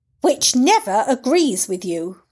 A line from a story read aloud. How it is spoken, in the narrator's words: Carrie replied sharply